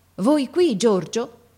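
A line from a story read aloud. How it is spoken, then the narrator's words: Amazed. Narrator (Italian): mio padre che dice in tuono di meraviglia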